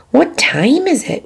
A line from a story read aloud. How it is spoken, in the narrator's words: whispered Wilbur